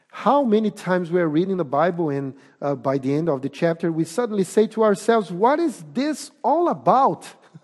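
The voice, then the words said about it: Portuguese accent. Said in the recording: “I have a Portuguese accent. Probably you're going to think about my accent”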